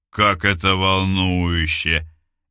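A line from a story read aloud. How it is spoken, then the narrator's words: Mocking drawl. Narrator (Russian): издевательски протянул Сергей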